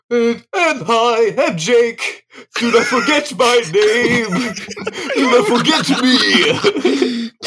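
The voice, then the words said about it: Imitates another person's voice. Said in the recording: “That was the best impression, dude,”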